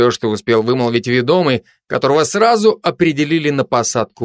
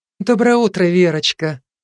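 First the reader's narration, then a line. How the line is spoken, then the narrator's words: Affectionate babbling, woman. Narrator (Russian): ласково пролепетала супруга народного артиста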